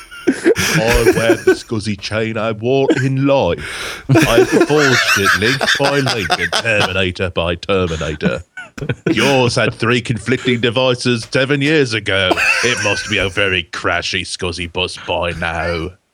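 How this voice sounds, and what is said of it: Put-on English accent. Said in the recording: “That's very good, ... Is that Birmingham English? ... a superb English accent. It's better than yours.”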